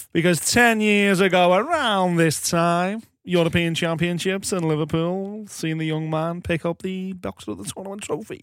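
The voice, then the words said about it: Puts on an unusual voice. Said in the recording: “Why are you talking like that? Why are you doing that voice?”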